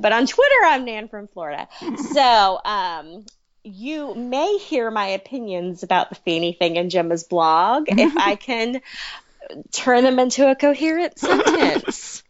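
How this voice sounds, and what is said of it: Southern American accent. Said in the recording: “I sound more Southern than a lot of Floridians do because I'm sort of from South Carolina.”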